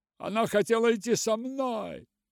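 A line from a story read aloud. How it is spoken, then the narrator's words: Angry shouting. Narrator (Russian): кричал он гневно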